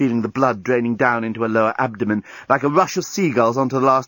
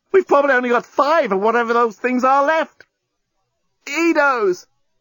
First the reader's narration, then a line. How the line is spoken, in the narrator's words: The journalist tried not to yell out with the pain of his wound